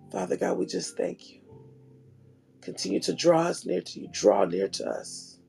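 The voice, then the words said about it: Weak, partly lost voice. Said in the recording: “My voice has gone a little bit this morning”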